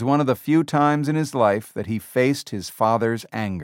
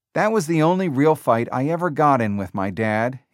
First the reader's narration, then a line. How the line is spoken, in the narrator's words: said